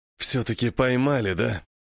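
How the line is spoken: Prisoner's wheeze. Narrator (Russian): хрипит пленник

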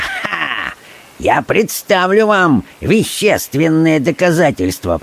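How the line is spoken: Sharp interrupting voice. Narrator (Russian): прервал его Магнус резким голосом

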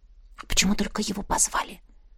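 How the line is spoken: Whispered question. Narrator (Russian): шепотом спросила Настя

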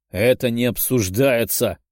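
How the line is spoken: Menacing, restrained man. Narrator (Russian): грозным голосом ответил мужчина, стараясь держать себя в руках

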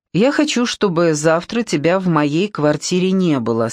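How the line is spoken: Plain. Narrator (Russian): сказала она

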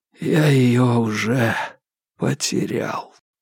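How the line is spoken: Hoarse whisper. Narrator (Russian): хрипло прошептал Марк

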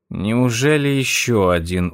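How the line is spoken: Weary sigh. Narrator (Russian): устало вздохнула она

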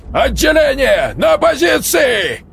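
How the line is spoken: Sergeant major shouting. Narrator (Russian): Крикнул старшина

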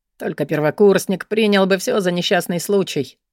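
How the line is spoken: Grumbled. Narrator (Russian): пробурчал Кристиан

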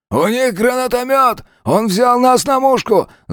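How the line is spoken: Frantic yell. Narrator (Russian): заорал Мигель

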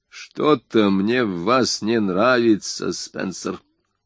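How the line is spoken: Muttered. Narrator (Russian): пробормотал Вольф

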